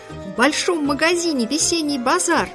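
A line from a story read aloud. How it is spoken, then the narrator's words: Desperate loud shout. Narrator (Russian): Она ужасно громко кричала, и глаза у нее были круглые, как кнопки, и отчаянные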